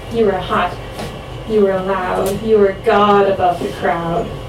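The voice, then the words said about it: Put-on American accent. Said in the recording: “I'm gonna an American accent feels right for this.”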